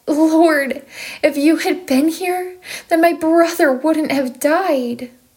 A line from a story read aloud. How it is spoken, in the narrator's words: Mary cried